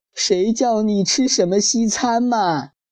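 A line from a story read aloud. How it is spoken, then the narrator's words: Buzzing, crying. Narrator (Chinese): 蚊子妈妈嗡嗡地哭着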